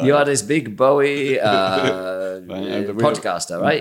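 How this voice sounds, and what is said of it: Put-on Brazilian accent. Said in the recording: “I'm going to do a Brazilian accent.”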